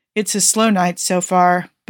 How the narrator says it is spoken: Booker sighs

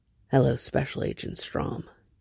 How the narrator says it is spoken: Hoffman's breath is hot against his neck as he murmurs

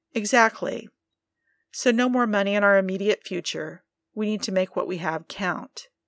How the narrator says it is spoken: she sighed

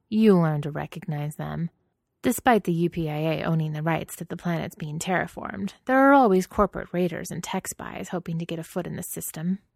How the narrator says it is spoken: Matthias said in a knowing tone

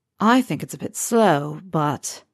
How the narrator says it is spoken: Harry sighs

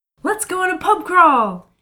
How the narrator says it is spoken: Kayla says excitedly

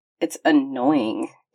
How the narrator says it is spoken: Dumai grumbled

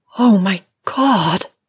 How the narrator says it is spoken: she says in a strained moan, low in her throat as though exasperated by the strength of her own desire

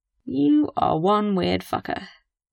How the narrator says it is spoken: Frank mutters

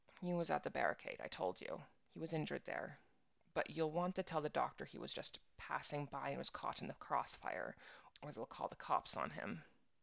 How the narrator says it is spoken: she muttered

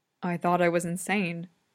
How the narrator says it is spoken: Roy mutters

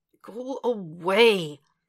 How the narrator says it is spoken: He groans, and the voice fades

